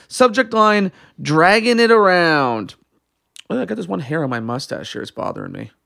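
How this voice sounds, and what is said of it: Hoarse, fading voice. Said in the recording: “am I losing my voice too on top of this?”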